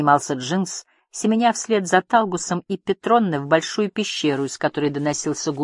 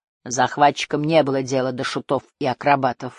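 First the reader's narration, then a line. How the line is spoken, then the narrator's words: Snort. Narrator (Russian): фыркнул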